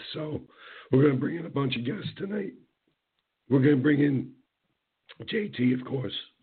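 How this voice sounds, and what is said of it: Hoarse, weakened voice. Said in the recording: “trying to get my voice back in time for the show ... It might not give me my voice back by the end of the bottle ... My rant tonight is that I can't rant. How the hell am I supposed to rant like this?”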